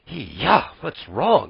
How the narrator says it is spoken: he muttered in his sleep

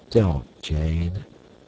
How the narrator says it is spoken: said Clayton sadly

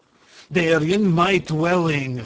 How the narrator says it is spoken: snapped Kwitoffo

